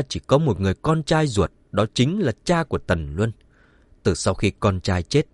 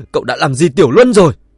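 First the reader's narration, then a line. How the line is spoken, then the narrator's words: Furious. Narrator (Vietnamese): Ông cụ Tần lại tức giận không dứt, cả giận nói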